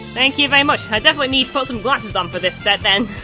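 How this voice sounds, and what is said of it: Speaks with a noticeable accent. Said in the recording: “something about my accent ... Someone did say I like my accent ... I love your accent.”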